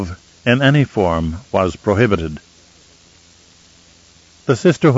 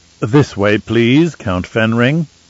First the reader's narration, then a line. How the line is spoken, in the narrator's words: Ajitika said in his most pleasant voice